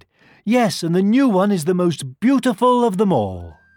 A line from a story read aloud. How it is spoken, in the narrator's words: one little girl cried